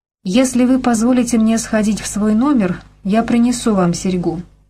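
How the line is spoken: Weary speech. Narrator (Russian): устало промолвила Беркли

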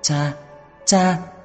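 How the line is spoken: Loud uncontrolled sobbing. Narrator (Vietnamese): Cô không kiềm chế được nữa lớn tiếng kêu khóc

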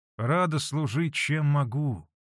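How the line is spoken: Gentle but restrained. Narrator (Russian): Ласково, но сдержанно ответила Манефа

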